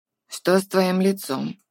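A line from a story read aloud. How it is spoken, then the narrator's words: Gruff, worried. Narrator (Russian): грубоватым голосом спросила она, однако Артур знал, что кормилица не сердится на него, а просто очень волнуется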